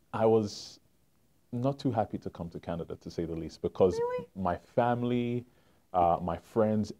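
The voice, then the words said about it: London English accent. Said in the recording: “I have a little bit of an accent. ... A little bit. ... Born and raised in London, England”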